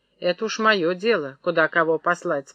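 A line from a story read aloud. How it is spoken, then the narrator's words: Calm. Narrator (Russian): спокойно сказал Захар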